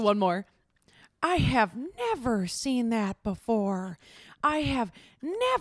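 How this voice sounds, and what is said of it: Usual voice. Nothing is said of it.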